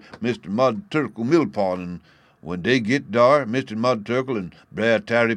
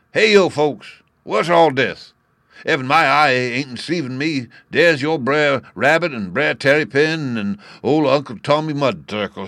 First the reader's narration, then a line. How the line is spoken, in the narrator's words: he hail 'em